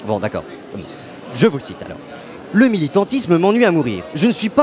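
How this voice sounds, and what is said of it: Usual voice. Nothing is said of it.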